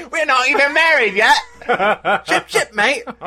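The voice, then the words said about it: Put-on British accent. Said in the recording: “She probably did it with a British accent.”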